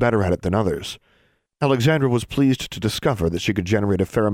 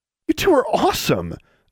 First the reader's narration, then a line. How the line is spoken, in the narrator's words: exclaimed Alexandra